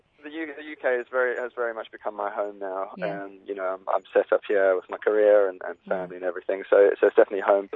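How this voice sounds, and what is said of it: Mixed South African and British accent. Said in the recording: “Hence why the accent has changed quite a bit. ... it is a mix, but we kind of plucked it out a little bit, we could hear.”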